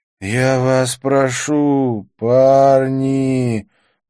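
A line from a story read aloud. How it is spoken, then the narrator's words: Resonant deep voice. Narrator (Russian): произнес Деннис своим звучным глубоким голосом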